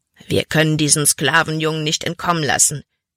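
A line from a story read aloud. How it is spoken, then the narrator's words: Growling. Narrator (German): knurrte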